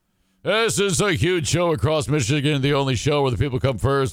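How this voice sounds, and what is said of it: Imitates another person's voice. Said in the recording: “my impression of Bill”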